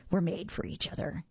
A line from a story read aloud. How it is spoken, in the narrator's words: he growled